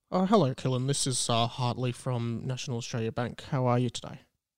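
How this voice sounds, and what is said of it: Put-on fake voice. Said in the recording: “It sounds like you're putting on a voice.”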